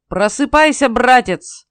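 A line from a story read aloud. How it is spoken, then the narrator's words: Loud bark. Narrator (Russian): гаркнул Сим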